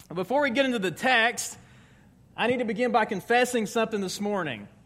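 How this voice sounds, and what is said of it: Southern US accent. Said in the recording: “my accent recalibrates when I go to the South”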